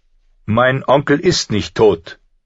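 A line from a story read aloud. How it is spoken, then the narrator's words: Loud, angry raised voice. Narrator (German): erhob Rob Stark die Stimme laut und voller Zorn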